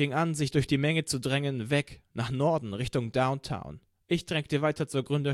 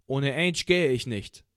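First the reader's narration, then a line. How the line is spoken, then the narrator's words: Plain. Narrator (German): sagte ich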